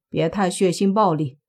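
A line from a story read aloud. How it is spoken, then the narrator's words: Flat, indifferent. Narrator (Chinese): 淡淡说了句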